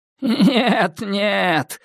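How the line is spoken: Laughing. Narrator (Russian): рассмеялся каменщик

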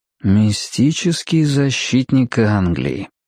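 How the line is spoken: Drawled. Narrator (Russian): протянул Мэтью

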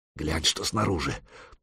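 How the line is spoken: Muttered. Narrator (Russian): пробормотал Дахи

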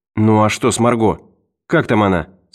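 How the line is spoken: Plain. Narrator (Russian): спросила Лиза

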